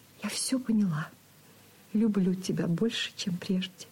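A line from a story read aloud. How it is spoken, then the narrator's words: Soft whisper. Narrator (Russian): тихо шепнула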